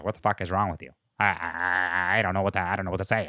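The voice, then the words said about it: Imitates another person's voice. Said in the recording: “That's my Vince Vaughn. That's my Vince Vaughn impression. ... Is on point. That was good.”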